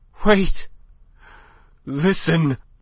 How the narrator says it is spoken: Madame was panting

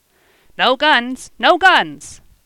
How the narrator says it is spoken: he shouted

